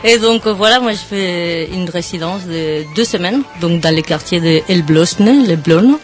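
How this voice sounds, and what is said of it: Spanish-accented French. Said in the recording (French): “l'accent quand même, bien l'accent”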